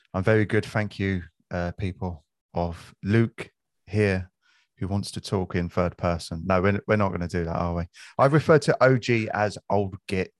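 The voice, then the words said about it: South East London Cockney accent. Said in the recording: “my South East London Cockney accent”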